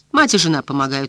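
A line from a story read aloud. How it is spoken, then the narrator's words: Gloomy reply. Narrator (Russian): мрачно ответил Гарп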